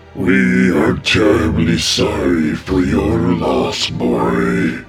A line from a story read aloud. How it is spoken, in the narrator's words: the twin voices of the Great Spirits boomed